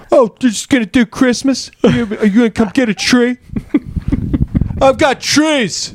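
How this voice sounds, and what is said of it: Imitates another person's voice. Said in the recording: “I would turn it into a Brian Regan ... whenever I do an impression, I just say the name really nervously after”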